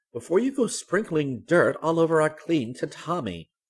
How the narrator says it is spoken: Gran cried

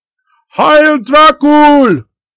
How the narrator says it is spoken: they cried

